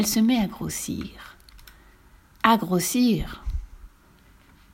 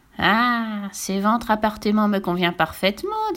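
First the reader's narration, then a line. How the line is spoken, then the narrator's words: Plain. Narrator (French): dit-elle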